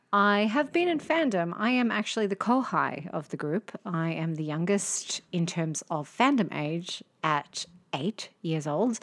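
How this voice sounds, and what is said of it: Broad Australian accent. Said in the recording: “I am Australian. As you can tell by my ochre accent”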